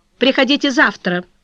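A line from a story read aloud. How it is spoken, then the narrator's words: Curt. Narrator (Russian): сказала она отрывисто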